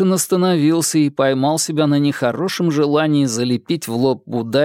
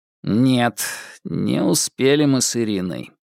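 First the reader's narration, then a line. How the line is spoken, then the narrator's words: Sighing. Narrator (Russian): он вздохнул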